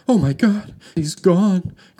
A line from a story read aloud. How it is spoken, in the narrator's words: cried Bianca